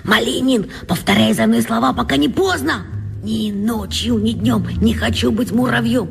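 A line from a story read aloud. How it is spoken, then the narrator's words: Hurried whisper. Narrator (Russian): успел шепнуть Косте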